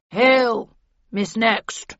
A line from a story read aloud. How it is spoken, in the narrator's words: rumbled Falstaff, waddling up and staring at me unsteadily from within a cloud of alcohol fumes